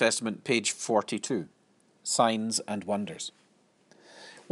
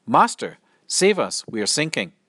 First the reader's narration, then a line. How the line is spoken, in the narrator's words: Terrified, the disciples called out